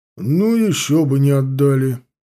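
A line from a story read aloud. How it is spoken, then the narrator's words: Pompous bass. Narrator (Russian): с важностью пробасил Федот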